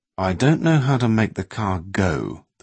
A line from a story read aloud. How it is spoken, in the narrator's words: the willing warlock said sullenly